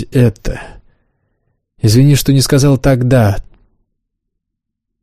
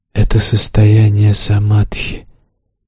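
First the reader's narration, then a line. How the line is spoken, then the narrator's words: Quiet, demon. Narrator (Russian): тихо сказал демон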